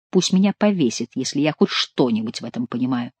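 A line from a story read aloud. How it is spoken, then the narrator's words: Muttered. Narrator (Russian): пробормотал Шико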